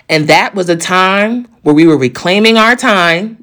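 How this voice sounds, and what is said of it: Maxine Waters impression. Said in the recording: “in my Maxine Waters voice,”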